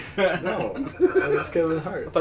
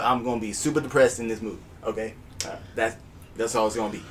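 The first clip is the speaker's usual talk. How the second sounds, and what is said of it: Poor Kevin Hart impression. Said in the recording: “my Kevin Hart impression ... I thought you were Eddie Murphy ... I thought you were Chris Tucker ... I thought you were Jack Black ... it wasn't a very good impression”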